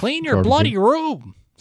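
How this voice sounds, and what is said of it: Impression of Jordan Peterson. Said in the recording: “you do a great impersonation of”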